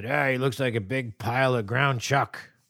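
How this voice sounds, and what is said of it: Abusive drunk dad character voice. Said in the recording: “I really enjoy your dad voice. It's nice. This is my abusive drunk dad voice. ... Abusive drunk dad indeed.”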